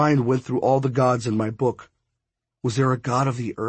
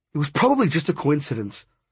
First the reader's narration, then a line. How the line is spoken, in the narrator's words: Brooks said sharply